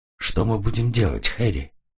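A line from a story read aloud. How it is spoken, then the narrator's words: Quiet question. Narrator (Russian): Нина тихо спросила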